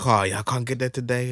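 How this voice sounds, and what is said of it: Generic Asian accent, poorly done. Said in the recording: “I'm terrible accents. That was just a generic Asian accent.”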